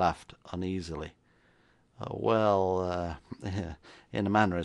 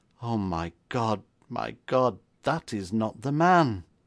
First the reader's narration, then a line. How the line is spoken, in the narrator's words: stupefied, and then moaned